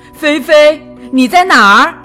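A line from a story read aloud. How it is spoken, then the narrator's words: Old man calling out. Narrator (Chinese): 派老头喊着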